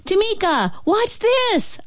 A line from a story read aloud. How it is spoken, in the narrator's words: shout